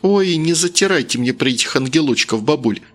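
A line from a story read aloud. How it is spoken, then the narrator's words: Angry grimace. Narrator (Russian): зло скривилась она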